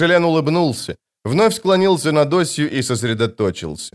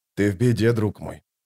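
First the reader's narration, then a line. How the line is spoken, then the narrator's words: Quiet speech. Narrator (Russian): тихо проговорил Остряк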